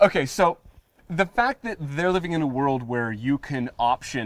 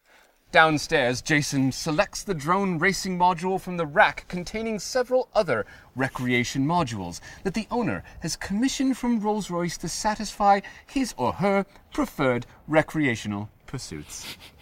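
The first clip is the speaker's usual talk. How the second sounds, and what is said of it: Put-on accent, mediocre. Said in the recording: “massive congrats on the accent. ... That was pretty good. ... It's a 4 out of 10.”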